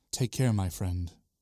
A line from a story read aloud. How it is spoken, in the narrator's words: Nicodemus whispers